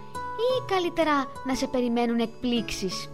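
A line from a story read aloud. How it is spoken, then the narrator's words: Smiling. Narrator (Greek): Χαμογέλασε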